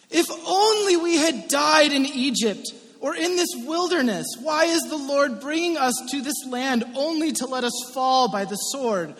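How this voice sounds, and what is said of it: Whiny reading voice. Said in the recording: “in a whiny voice ... With a little pirate thrown in there at one point.”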